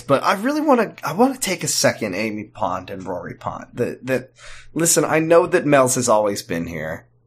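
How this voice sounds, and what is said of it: Sick-sounding voice. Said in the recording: “Boy, I got sick recently, and boy, you can hear it in my voice.”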